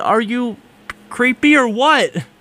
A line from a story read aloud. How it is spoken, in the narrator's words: I screamed